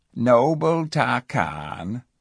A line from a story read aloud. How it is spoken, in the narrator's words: said the cat in that silky voice of his